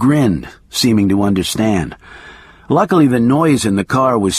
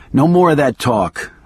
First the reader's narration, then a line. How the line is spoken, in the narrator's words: I said sharply